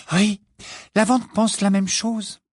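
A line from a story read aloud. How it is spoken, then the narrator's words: Grieved. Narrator (French): dit-elle d'un ton affligé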